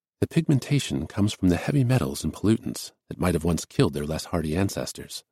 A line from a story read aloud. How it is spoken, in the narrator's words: said Asa